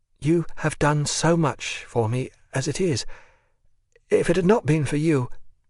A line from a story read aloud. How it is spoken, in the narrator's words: her voice trembled